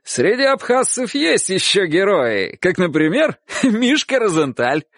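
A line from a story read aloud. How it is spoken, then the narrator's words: Shouted. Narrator (Russian): он так выкрикивал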